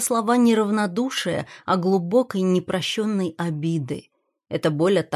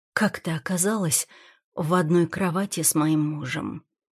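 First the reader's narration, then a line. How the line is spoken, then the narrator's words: Quiet question. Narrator (Russian): Спрашиваю тихо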